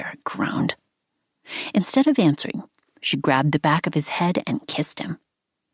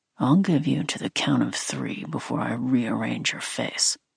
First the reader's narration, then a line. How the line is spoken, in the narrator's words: he said in that deadly calm voice